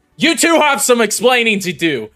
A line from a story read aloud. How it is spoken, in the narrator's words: yell to Lotus and Dolus